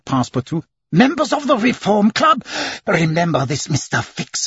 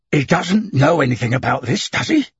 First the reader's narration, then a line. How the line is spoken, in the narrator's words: Fix asked sharply